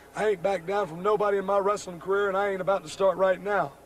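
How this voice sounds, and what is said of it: Frazzled, worn-out voice. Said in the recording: “my voice is kind of frazzled.”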